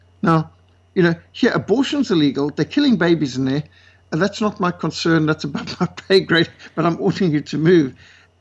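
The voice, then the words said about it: South African accent. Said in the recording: “that's not an Australian accent. ... South Africa”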